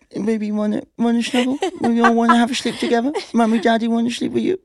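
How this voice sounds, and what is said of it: Cooing baby voice. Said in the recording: “That's not my baby voice, by the way. That's it, baby voice.”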